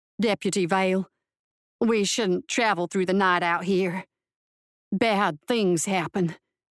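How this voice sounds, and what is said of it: Thick Southern American twang. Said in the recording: “His American accent was thickened further with a southern twang.”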